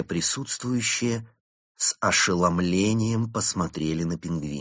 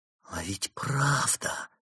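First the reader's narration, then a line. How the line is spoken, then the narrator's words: Whisper. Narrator (Russian): прошептала Берта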